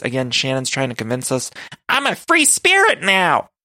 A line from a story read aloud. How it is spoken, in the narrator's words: she shouts in her confessional